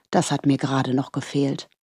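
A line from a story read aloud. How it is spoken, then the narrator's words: Murmuring. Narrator (German): murmelte er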